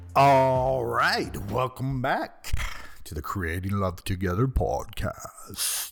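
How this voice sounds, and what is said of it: Deliberately deep voice. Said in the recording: “put on my deep voice,”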